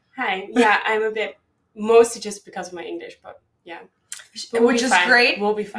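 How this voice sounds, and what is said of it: Dutch-accented English. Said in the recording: “people are going to listen to your accent. They're going to be like, where are you from? ... my accent is really Dutch. And it's what you probably can hear ... but you have an accent”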